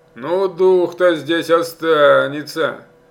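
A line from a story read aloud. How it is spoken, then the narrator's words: Loud cheerful assurance. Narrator (Russian): громко и весело заверил пастух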